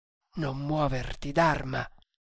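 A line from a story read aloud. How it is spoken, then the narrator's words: Whispered. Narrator (Italian): le sussurrò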